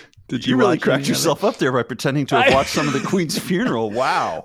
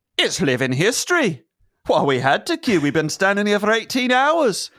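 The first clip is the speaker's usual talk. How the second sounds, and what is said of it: Poorly done put-on accent. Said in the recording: “that accent sucked”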